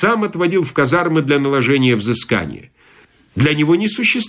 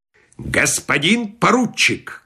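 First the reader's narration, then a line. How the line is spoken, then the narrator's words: Menacing. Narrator (Russian): грозно сказал полковник Краус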